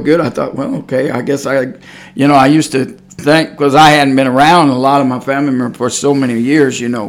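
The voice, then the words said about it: Texas accent. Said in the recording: “I didn't much lose the accent... that Texas accent”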